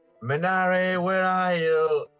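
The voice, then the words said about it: Shouting a name. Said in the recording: “I'm shouting,”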